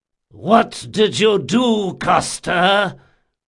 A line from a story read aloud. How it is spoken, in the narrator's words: roared Requin